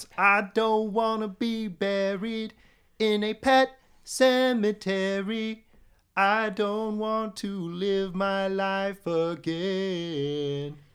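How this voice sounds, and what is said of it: Sung imitation of a punk singer. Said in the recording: “I love that you sang that. And that was a pretty good Ramones impression too.”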